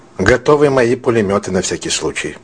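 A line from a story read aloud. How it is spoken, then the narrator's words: Plain. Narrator (Russian): сказал Мушкатов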